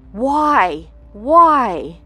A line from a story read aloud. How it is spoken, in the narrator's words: she cried out